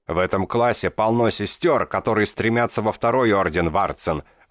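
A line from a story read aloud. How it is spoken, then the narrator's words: Roar. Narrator (Russian): взревел Ирум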